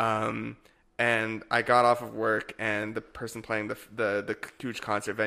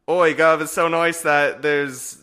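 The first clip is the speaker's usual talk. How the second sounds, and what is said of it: Put-on English accent. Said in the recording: “this is my English accent.”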